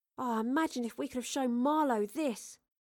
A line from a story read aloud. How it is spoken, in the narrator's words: Astrid sighed